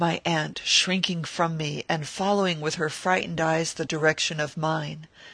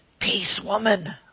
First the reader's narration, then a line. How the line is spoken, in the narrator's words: I said in a hoarse whisper